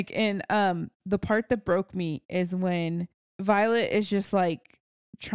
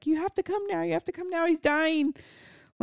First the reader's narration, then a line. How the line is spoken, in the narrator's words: Violet's like screaming to Zayden